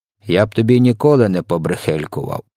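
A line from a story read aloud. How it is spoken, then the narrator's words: Grumbling. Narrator (Ukrainian): буркнув він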